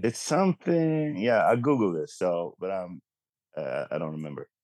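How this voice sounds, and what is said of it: Swedish-accented English. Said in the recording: “my perfect Swedish American accent”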